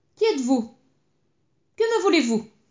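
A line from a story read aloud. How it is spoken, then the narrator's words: Shouted. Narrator (French): cria-t-il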